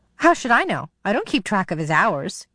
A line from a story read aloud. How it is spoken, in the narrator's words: she snapped